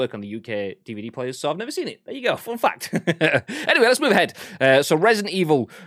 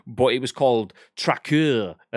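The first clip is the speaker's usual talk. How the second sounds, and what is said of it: Bad put-on French accent. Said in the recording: “my horrible attempt at a French accent.”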